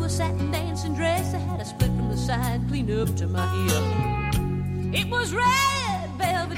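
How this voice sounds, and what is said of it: Southern drawl accent. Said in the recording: “She has the best accent ever ... best accent on Naked Beauty so far ... I love her Southern drawl.”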